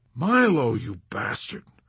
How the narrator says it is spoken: moaned Yossarian

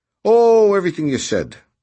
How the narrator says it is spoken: replied Noonan cheerfully

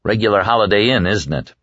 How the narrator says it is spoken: Larry said dryly

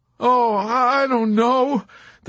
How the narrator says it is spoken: the chaplain groaned

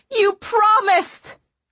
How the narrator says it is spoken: I shouted

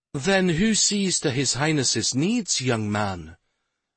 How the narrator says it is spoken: She asked in a remarkably mild tone

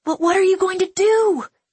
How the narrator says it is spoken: Iska cried

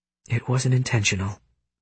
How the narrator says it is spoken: Sage mutters

